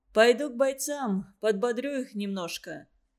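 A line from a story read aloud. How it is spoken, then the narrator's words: Plain. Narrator (Russian): сказал Лагунов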